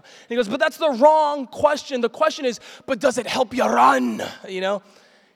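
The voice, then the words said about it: Scottish-sounding impression of a preacher. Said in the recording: “doing a killer impersonation ... He's not Scottish, but that's how I hear it”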